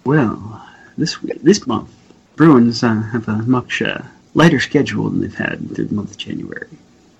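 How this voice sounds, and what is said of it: Low, slow put-on sexy voice. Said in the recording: “Practice your sexy voice ... My sexy voice is saying. ... Low and slow.”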